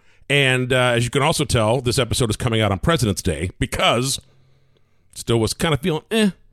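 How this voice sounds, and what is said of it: Slightly hoarse voice. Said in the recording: “I've been sick. Well, as you can tell, I'm still a little hoarse.”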